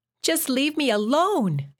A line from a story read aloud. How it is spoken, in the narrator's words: she screamed